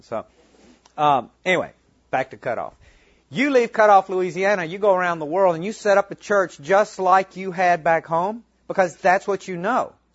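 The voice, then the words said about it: Southern US Mississippi accent. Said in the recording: “we're originally from Mississippi. You can probably tell by the accent.”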